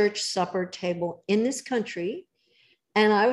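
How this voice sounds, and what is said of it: Usual voice. Nothing is said of it.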